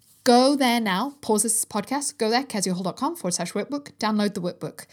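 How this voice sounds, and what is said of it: Mixed English accent. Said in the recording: “I don't know what my accent is, by the way, some mongrel English accent.”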